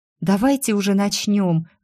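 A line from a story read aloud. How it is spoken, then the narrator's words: Pleading. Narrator (Russian): взмолилась Дафна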